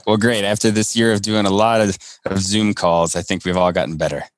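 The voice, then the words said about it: Polished radio-announcer voice. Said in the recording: “I'm really loving your mic setup. You sound like a radio announcer.”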